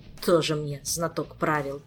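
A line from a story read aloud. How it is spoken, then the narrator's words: Scornful snort. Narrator (Russian): фыркнул Кантор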